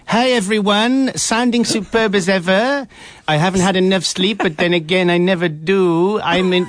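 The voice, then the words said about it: Imitates another person's voice. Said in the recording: “Shall I do an impression of Matt? ... this is an endearing impression”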